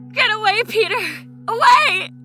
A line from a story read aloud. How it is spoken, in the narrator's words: her shriek